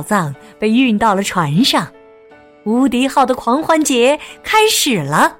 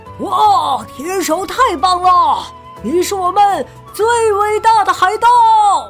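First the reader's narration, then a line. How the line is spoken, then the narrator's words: Excited shouting. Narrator (Chinese): 船员们…兴奋的叫喊道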